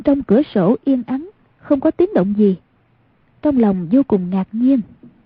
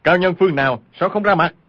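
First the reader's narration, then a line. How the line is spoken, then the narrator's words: Frightened and angry shout. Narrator (Vietnamese): vừa sợ vừa giận, y quát lên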